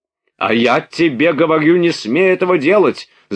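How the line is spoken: Shout. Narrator (Russian): закричал Денисов

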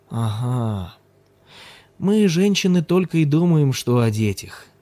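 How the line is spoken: Sleepy. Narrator (Russian): сонно проговорил Ким

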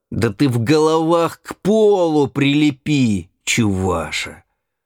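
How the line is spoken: Loud and rough. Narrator (Russian): Григорий громко и грубо сказал

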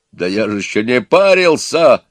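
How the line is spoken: Calm yelling. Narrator (Russian): заорал спокойно Петро

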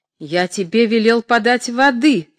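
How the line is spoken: Angry. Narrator (Russian): сердито сказал Тавровский

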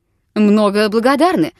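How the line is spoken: Loud barked military shout. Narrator (Russian): гаркнул по-солдатски великан

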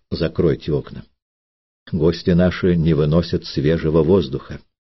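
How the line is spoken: Quiet. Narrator (Russian): тихо сказал Надежде

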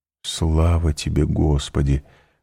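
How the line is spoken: Whisper. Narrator (Russian): прошептал он

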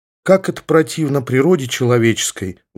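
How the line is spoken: Sighing, deacon. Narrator (Russian): вздохнул дьякон

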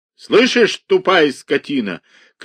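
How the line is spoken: Shouted. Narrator (Russian): крикнул Иван Дмитриевич

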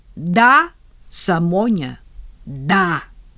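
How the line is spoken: Stern. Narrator (Russian): строго мне говорит

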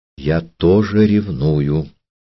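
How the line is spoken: Quiet. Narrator (Russian): тихо сказала она

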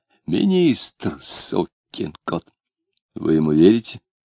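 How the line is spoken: Heated whispered question. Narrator (Russian): горячим шептом спросил сосед Клима

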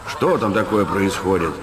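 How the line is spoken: Bossy commanding question. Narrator (Russian): спросил он свойственным ему начальственным тоном

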